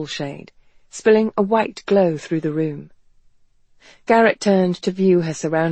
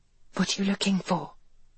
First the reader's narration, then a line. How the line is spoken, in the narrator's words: Garrett asked in a hushed voice